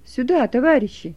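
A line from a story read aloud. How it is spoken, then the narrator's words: Shouted. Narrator (Russian): крикнул он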